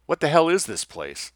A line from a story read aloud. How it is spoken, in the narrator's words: Lessing called out loudly